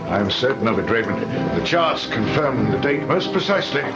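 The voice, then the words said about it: Very good put-on English accent. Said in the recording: “he's doing a very, very, very good English accent. ... I presume that he's Scottish in real life.”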